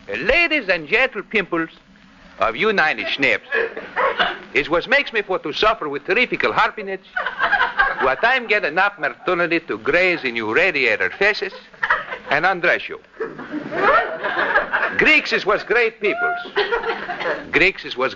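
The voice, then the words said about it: Mock Greek dialect, George Gibbet impression. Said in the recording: “that Greek dialect of yours? You know, your imitation of that vaudeville actor, George Gibbet.”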